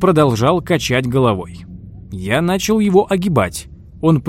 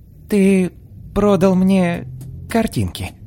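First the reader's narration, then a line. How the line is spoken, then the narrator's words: Slow. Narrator (Russian): медленно вымолвил он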